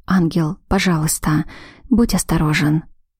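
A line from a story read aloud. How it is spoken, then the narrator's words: Soft whisper. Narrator (Russian): я тихонько прошептала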